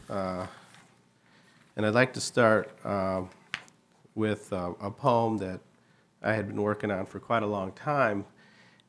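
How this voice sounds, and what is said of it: Voice affected by a cold. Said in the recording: “I have a cold, so hopefully I won't break out into a coughing fit”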